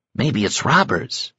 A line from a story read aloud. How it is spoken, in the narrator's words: whispered back